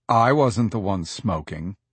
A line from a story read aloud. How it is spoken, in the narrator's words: Harris says in a low and brooding tone